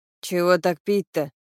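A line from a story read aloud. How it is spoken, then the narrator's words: Grumbling. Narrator (Russian): ворчал Денис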